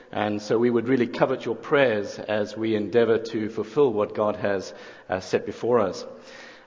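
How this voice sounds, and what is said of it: South African accent. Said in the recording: “I'm not originally from around these parts. I think it's the accent that gives it away... I'm from South Africa”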